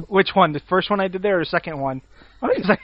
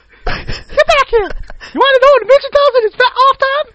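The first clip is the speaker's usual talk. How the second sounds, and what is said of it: High-pitched squeaky angry cartoon voice. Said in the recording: “I switched it up into a high-pitched, squeaky voice ... You sound like pissed off Mickey Mouse”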